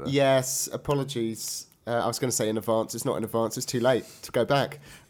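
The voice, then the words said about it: Voice off, sounds congested. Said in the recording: “You might have noticed ... sounding a little under the weather ... I'm currently suffering from a terrible cold. So my voice is a little bit off.”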